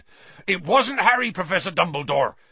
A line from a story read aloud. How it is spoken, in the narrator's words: said Hagrid urgently